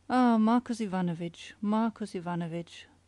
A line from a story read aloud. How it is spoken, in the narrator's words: sighed the inspector